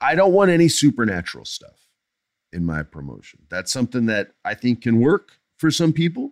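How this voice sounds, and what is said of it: Usual voice. Nothing is said of it.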